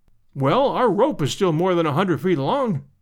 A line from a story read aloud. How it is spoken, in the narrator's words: I cried